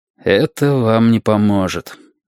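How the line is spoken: Tired. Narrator (Russian): устало сообщил ему адвокат

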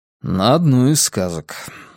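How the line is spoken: Dry. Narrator (Russian): сухо подтвердил я

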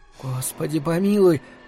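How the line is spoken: Whispered. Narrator (Russian): прошептала Марина

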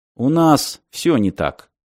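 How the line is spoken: Gloomy admission. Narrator (Russian): мрачно признал Мартин

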